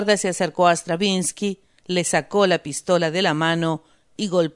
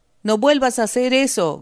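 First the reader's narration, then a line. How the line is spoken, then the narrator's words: Shout. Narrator (Spanish): gritó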